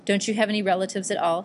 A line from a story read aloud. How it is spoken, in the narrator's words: Hideo asked